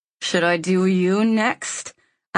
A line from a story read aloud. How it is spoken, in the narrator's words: I growl